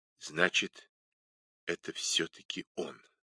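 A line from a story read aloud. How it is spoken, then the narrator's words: Quiet, lifeless, certain. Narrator (Russian): уверенно произнесла она тихим, безжизненным голосом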